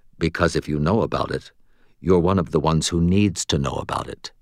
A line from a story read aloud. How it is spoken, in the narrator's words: she replied calmly